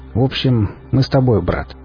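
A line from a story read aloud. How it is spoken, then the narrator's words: Pleased snort. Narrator (Russian): Я довольно хмыкнул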